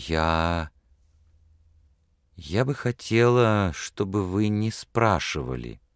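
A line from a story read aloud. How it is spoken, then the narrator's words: Soft. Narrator (Russian): мягко сказала она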